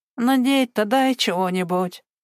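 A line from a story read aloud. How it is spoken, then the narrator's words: Whining. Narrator (Russian): заскулил он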